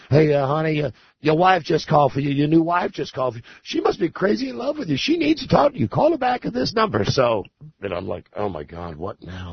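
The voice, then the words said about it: Put-on southern accent. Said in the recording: “she had a very southern accent.”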